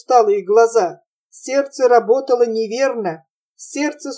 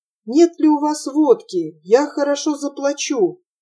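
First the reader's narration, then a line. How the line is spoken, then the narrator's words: Dejected voice. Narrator (Russian): удрученным голосом сказал он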